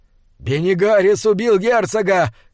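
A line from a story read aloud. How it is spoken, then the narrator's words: Shouted. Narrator (Russian): крикнул Диорнот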